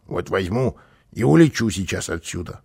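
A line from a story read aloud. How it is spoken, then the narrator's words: Grumbling. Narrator (Russian): проворчал он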